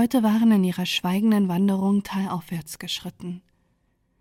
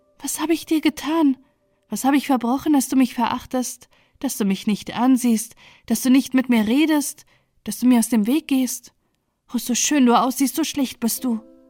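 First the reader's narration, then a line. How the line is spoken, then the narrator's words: Trembling voice. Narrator (German): sagte mit bebender Stimme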